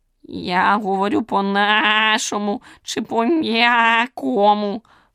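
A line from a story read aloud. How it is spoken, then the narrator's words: Hoarse croak. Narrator (Ukrainian): хрипнув жабун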